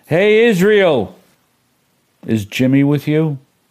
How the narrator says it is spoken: a voice cried out

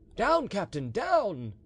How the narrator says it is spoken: he cried

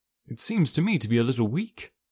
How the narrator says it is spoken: said I

